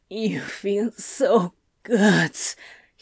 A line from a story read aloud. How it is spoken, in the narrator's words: he groaned, pushing his face into the sheets